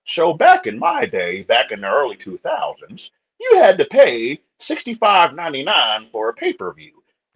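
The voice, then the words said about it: Put-on old man voice. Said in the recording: “my old man voice.”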